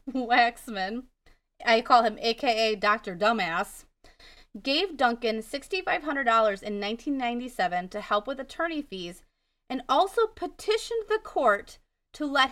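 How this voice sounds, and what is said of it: Wisconsin accent. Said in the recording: “my Wisconsin accent”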